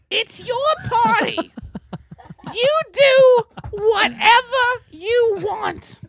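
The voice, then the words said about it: Imitates another person's voice. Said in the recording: “let me do the voice ... That's how she sounds ... Something brutal.”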